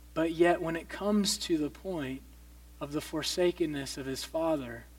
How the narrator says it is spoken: He cries out

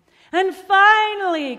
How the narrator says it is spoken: cried Giovanni

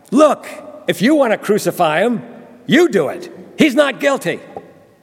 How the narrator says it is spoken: Pilate was exasperated, and angrily he yelled back

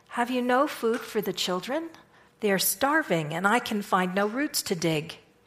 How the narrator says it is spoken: said in a disappointed tone

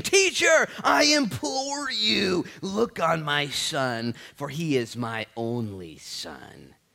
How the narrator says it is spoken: a man from the multitude, he cried out saying

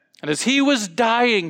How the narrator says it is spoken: he cried

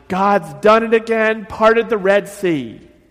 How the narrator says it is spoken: yelled out loudly

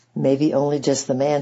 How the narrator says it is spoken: said Grandfather

